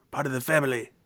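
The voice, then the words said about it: Bad mafioso Italian accent. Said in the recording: “That was my terrible, terrible mafioso Italian accent. That was awful.”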